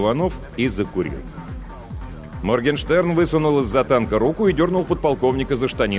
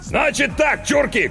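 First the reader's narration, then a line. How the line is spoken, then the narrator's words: Shouted. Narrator (Russian): крикнул он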